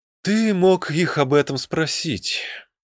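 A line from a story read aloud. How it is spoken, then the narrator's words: Sighing. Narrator (Russian): вздохнул Мидриэн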